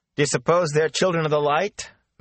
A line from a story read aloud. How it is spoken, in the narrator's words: Matt asked in a loud voice